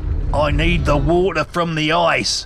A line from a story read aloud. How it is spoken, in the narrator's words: he yelled